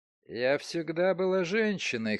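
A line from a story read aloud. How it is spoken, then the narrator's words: Hoarse woman's voice. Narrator (Russian): хрипло сказала незнакомка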